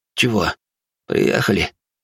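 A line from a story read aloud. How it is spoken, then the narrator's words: Hoarse, just woken. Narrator (Russian): хрипло спросил он, ощутив, как его трясут за плечо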